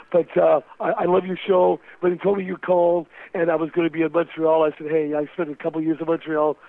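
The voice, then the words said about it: Hoarse, strained, nearly lost voice. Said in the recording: “I've lost my voice. ... My throat is, like, I can't even speak anymore”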